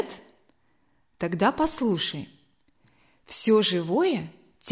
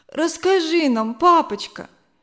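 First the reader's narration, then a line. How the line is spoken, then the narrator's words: Pleading while sobbing. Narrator (Russian): попросила Зина, все еще всхлипывая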